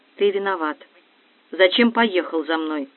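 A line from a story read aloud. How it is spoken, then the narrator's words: Quiet reproach. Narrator (Russian): Наташа тихо сказала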